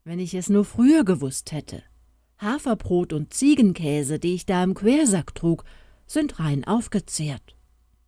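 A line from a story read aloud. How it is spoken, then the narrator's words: Called out. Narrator (German): rief Fridolin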